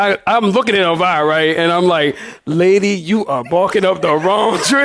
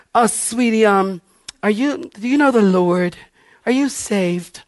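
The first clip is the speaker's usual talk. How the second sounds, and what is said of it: Imitates another person's voice. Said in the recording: “I don't know why I do that voice.”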